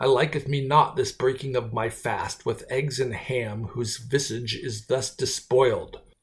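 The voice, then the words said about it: Mock Shakespearean character voice. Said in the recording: “doing the William Shakespeare voice”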